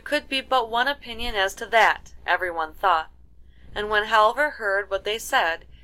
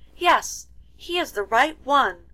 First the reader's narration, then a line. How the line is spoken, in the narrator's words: cried the youngest princess when she caught sight of him